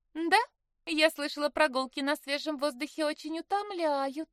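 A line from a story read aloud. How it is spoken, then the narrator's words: Cheerful reply, sister. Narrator (Russian): весело откликнулась сестра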